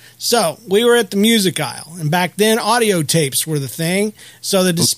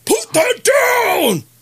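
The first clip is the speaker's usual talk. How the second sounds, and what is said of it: Shouted drill sergeant command voice. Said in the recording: “shouting in my best drill sergeant voice”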